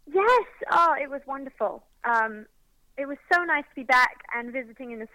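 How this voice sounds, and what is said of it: British accent. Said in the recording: “UK country artist ... It's always so good to hear your accent and your voice.”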